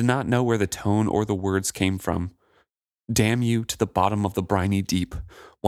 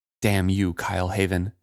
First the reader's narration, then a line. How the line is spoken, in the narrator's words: she said in a quiet, vicious voice